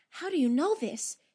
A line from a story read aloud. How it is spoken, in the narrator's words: she demanded in an almost breathless tone